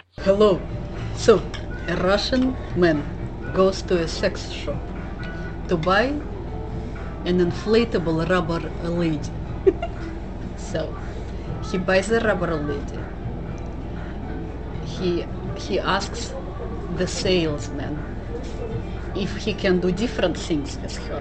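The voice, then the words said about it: Russian accent. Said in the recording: “telling a dirty joke in a Russian accent.”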